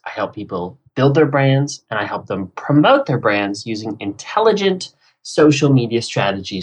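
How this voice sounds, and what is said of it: American accent, not British. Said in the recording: “based in Los Angeles, clearly from my accent, not from the UK”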